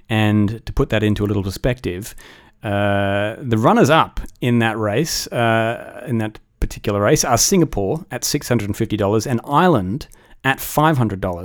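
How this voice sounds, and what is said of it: Australian accent. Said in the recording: “my delicious accent, that country is Australia”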